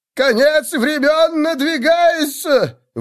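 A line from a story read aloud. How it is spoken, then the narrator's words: Zealot's wild howling. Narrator (Russian): вопил аскет, подвижник Сигмара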